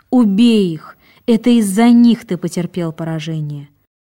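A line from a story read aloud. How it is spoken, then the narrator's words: Distressed exclamation. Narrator (Russian): Она не могла вынести вида бегущих мусульман, бросивших посланника Аллаха, саллиллаху алейхи вассалям, и воскликнула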